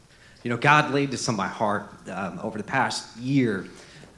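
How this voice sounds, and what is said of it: Emotional, choked-up voice. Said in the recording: “I'm getting emotional here”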